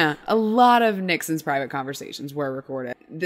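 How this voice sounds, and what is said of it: Usual voice. Nothing is said of it.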